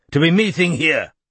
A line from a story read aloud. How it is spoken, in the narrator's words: said a booming male voice